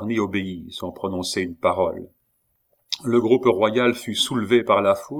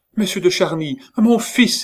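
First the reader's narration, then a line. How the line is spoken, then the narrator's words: Exclaiming. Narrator (French): s'écria-t-elle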